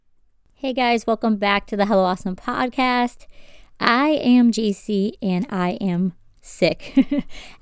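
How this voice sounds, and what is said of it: Congested, sinus-affected voice. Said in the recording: “I have some sinus issues, so my voice is a little bit different... this is just how my voice sounds for right now”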